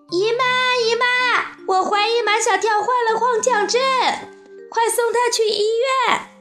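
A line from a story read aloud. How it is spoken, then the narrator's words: Shrill scream. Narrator (Chinese): 杜真子……尖声大叫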